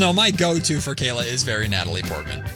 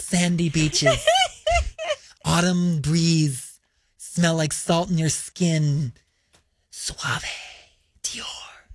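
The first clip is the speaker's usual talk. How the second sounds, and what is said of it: Imitates another person's voice. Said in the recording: “does a good impression of Natalie Portman in that one commercial ... It's really good.”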